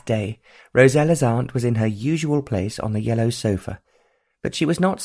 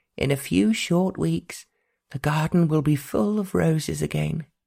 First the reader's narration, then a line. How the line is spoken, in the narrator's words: Aunt Beatrice said dreamily